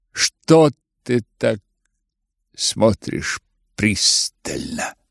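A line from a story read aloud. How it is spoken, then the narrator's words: Muttered question. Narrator (Russian): пробормотал он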